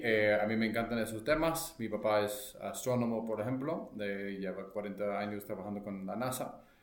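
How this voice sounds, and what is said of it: American accent speaking Spanish. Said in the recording (Spanish): “americano ... pido una disculpa por el español mal hablado ... a mí sí me gusta el acento, padre”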